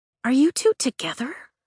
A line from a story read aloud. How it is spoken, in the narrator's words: She whispers